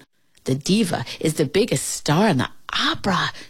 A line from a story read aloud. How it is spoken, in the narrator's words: Shirley whispered to her